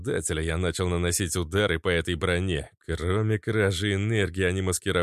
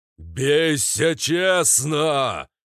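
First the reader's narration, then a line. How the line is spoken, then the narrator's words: Offended giant roaring. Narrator (Russian): Проревел обиженный гигант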